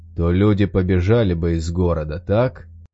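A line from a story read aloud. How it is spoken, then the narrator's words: Skeptical grunt. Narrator (Russian): Кэп хмыкнул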